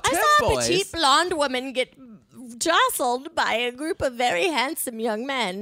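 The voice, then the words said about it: Put-on English accent. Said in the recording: “I like the accent you're adding here. ... Well, I'm not in England, but I am in this bit.”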